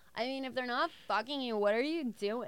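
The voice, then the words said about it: Imitates a drunk girl. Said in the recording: “this drunk girl ... I love that impression.”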